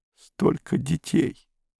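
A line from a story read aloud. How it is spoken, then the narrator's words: Sobbing. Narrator (Russian): сказала она, всхлипывая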